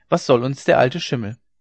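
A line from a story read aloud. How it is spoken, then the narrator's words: Calling out. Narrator (German): rief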